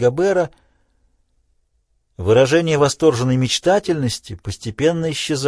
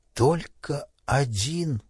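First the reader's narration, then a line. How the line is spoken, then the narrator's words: Whisper. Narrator (Russian): прошептал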